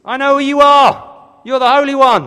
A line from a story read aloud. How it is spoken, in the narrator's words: starts yelling out in his sermon